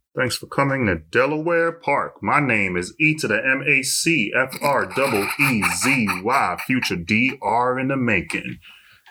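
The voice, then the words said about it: Announcer-style radio voice. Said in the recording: “That's like a radio voice.”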